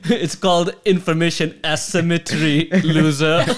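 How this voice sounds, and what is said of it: Put-on German accent. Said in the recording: “He has a German accent.”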